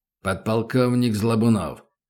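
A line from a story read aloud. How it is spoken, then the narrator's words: Growled. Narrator (Russian): рыкнул Добрынин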